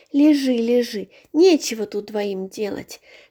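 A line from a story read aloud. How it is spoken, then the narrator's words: Gentle, affectionate. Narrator (Russian): ласково говорила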